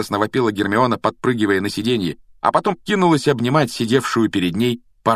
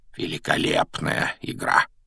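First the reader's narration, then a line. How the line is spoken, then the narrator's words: Quiet, private remark. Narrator (Russian): Негромко, чтобы его мог слышать только Гарри, произнес Дамблдор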